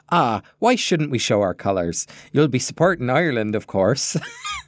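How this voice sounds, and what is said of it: Attempted Irish accent, near West Country. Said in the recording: “That's how she says it? ... that's nearly a West Country accent, but it'll do”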